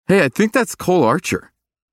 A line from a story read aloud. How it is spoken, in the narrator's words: someone shouted